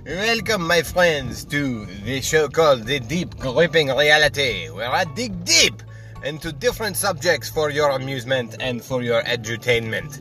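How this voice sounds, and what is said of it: Stereotypical put-on French accent. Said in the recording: “how incredibly stereotypical this French accent sounds”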